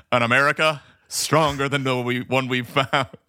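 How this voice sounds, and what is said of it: Impression of a presidential voice. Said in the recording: “Like presidential voice... That was a pretty good impression”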